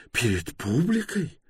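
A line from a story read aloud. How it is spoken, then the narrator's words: Whisper. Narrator (Russian): прошептал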